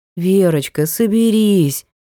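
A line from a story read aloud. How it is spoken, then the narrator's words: Gentle. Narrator (Russian): мягко напоминает Андрей Николаевич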